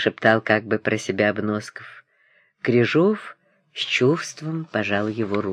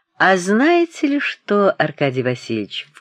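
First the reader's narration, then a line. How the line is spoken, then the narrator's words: Ingratiating, insinuating tone. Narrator (Russian): вкрадчиво начал Обносков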